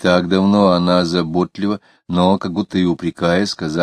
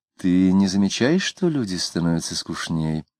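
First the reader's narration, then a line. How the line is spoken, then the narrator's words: Tired yawning wife's question. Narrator (Russian): жена, проводив гостей, устало позевнув, спросила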